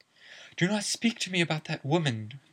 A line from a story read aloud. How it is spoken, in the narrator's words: cried Professor Trelawney